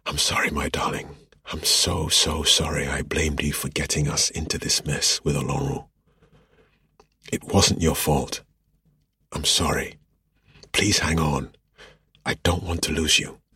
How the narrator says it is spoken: whispered

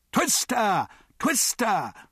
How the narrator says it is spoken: shrieked the crowd

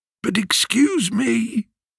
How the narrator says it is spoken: slightly quavering voice

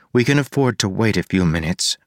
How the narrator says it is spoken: Marcy said

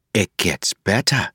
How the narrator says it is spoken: she said softly

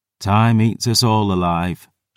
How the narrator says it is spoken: she sighed

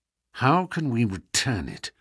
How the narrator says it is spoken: Holmes muttered

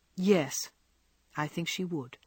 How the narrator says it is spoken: returned Laurie gravely

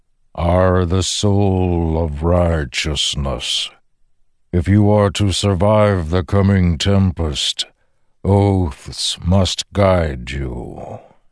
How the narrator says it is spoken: the Stormfather rumbled

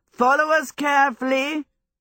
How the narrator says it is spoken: he shouted back to the Scarecrow

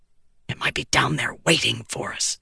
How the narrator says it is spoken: the prince hissed

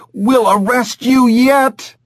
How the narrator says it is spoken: she screamed at Alex

